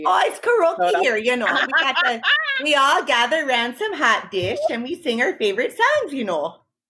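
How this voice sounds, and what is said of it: Comical Midwest housewife accent. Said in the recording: “my comical Midwest housewife accent ... My Minnesota listeners are up in arms right now.”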